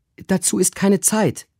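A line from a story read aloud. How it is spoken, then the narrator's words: Urgent call. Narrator (German): rief Susanna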